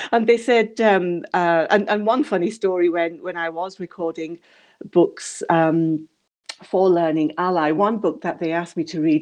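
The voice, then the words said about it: English accent. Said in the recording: “still have that um, uh, rock solid English accent”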